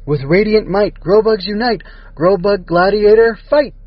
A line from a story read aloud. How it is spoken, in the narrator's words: the Grobugs called out together